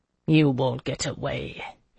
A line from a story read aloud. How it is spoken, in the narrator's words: he said bitterly